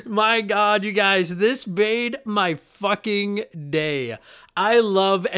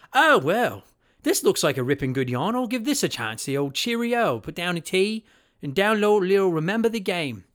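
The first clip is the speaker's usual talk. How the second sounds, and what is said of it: Attempted British accent. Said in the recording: “I'm going to try to attempt a British accent here that I can't promise is going to be good at all”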